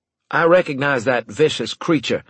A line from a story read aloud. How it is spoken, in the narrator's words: I said loudly